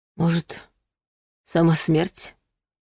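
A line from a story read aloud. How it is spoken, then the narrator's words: Quiet breathy exhale. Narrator (Russian): тихо выдохнул Илья Пантелеевич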